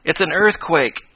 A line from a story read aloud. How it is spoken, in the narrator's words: yelled Tom Swift